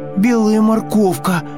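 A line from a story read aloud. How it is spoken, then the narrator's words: Hedgehog shouting. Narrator (Russian): крикнул ежик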